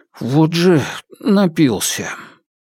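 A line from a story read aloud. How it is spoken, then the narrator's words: After a long sigh. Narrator (Russian): четвертый брат, протяжно вздохнув, произнес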